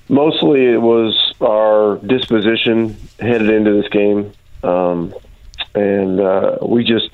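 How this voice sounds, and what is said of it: Crackly, hoarse voice. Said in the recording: “my voice is a little bit uh, crackly today.”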